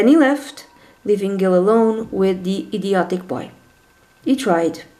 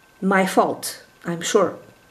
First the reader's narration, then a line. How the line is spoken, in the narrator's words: said Gil